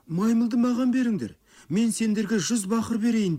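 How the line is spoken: Pleading. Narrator (Kazakh): деп жалынды Сабура

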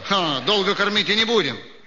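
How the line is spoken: Plain. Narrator (Russian): сказал Шевцов

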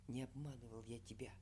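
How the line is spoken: Hurried half-whisper. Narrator (Russian): Торопливо полушепотом заговорил Егор

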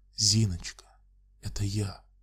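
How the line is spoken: Quiet calling. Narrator (Russian): тихо позвал ее

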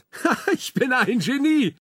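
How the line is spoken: Called out. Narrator (German): ruft er

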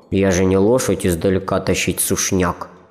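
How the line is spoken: Grumbling beaver. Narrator (Russian): проворчал бобер

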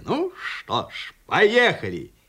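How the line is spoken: Cheerful. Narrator (Russian): бодро сказал себе

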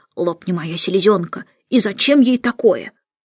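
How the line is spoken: Grumbling. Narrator (Russian): ворчал

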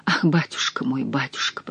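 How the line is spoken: Whispering. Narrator (Russian): прошептала я

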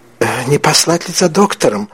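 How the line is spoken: Timid question. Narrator (Russian): робко спросила графиня

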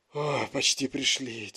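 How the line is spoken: Heavy breathless exhale. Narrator (Russian): тяжело выдохнул Гарри

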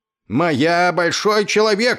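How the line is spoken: Yelling. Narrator (Russian): орал он

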